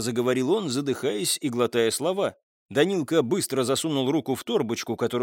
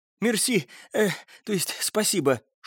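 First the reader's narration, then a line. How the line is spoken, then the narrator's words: Boy exhaling noisily. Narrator (Russian): шумно выдохнул мальчик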